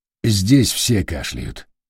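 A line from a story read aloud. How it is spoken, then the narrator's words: Calm reply. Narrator (Russian): спокойно ответил Помпилио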